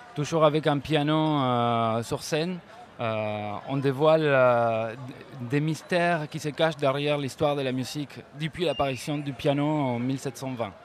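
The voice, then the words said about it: Slight foreign accent. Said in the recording (French): “Même vous avez un petit accent.”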